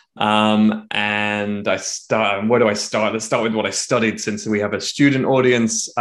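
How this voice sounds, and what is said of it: British accent, somewhat Americanized. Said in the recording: “I originally from the UK, as people may pick up from my accent, though it's quite Americanized now.”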